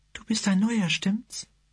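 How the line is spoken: Gentle voice asking. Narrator (German): fragte sie mit sanfter Stimme

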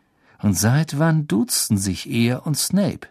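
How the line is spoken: Slow speech. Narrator (German): sagte Harry langsam

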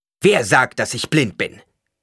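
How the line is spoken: Sharp question. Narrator (German): fragte Paul scharf

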